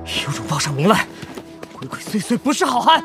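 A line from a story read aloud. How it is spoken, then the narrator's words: Struggling, yelling. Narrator (Chinese): 都挣扎着，严君玉还嚷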